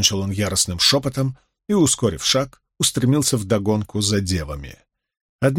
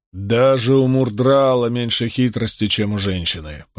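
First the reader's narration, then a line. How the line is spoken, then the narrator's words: Grumbled. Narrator (Russian): пробурчал Гаул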